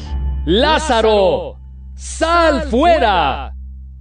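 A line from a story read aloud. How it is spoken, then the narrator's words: Loud exclamation. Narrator (Spanish): exclamó Jesús con fuerte voz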